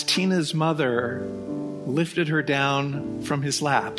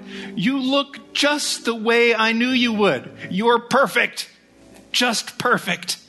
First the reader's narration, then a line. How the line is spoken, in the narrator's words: cried